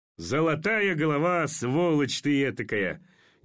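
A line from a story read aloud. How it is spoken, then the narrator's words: Forced, vain laughter. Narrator (Russian): Неестественно и самолюбиво засмеялся Орлов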